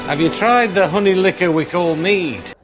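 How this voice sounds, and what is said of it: British accent. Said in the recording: “fake British accents. ... that was a good British accent. ... It's from Scotland.”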